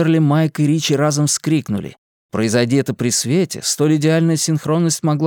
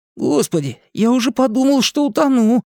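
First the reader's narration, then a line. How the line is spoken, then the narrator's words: Moaning. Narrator (Russian): простонал Ричи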